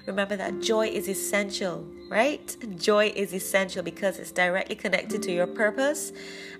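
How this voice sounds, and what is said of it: Smiling, warm voice. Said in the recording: “you hear the smile in my voice”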